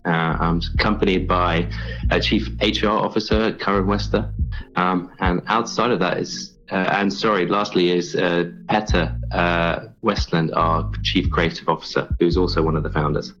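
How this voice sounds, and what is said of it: Foreign, non-American accent. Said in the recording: “I hear your accent. I'm hearing something foreign to the United States. Probably something more, regal.”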